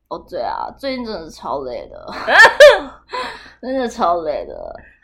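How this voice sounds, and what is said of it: Vocal fry dragging phrase endings. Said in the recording (Chinese): “讲话尾音都拖一个气泡音...那个声音对我来说就是一个刚睡醒的声音”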